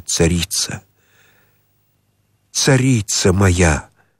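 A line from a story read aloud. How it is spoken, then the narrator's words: Prayerful whisper. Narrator (Russian): прошептал, как молящийся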